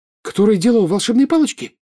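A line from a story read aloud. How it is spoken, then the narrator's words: Frightened question. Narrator (Russian): испуганно спросила Джинни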